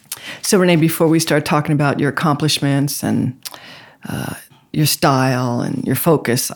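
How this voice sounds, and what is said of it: Sultry radio-announcer voice. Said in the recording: “Vi Higginson from WBLS back in the 1980s. ... With that very sexy voice coming across the airways.”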